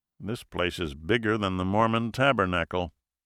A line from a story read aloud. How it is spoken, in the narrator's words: Congressman Kincaid muttered